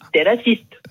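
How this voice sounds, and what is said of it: Funny imitated Japanese accent. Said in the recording (French): “l'accent marrant ... Elle est japonaise.”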